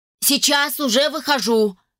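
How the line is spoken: Shouting. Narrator (Russian): крикнул Финис Монрой

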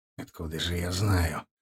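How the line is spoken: Irritated reply. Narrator (Russian): раздраженно ответил Самедов

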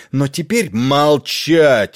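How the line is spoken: King roaring. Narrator (Russian): взревел король

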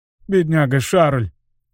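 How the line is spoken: Heavy sigh, whisper. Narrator (Russian): тяжело вздохнув, прошептал Бертран

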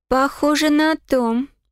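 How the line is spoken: Drawled. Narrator (Russian): протянула рыжая

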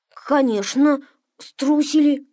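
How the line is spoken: Plain. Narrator (Russian): сказал Незнайка

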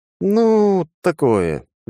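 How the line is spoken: Lazy drawl. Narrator (Russian): лениво протянул я

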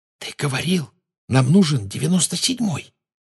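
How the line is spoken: Whisper. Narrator (Russian): прошептала Гермиона

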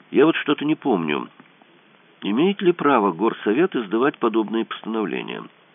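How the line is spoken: Very soft voice. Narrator (Russian): Мягчайшим голосом промолвил Кацуба

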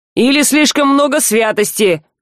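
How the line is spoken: Snapped. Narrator (Russian): огрызнулся Мих

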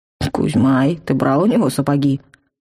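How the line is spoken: Stern request. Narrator (Russian): строго попросил магистр

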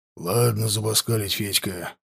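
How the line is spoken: Sullen grumble. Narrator (Russian): буркнул насупленный Карпыч

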